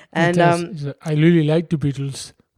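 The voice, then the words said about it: Weak put-on Russian accent. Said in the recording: “My Russian accent needs work.”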